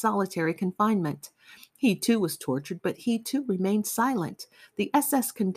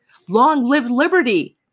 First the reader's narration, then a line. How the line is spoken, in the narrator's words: shouted the two men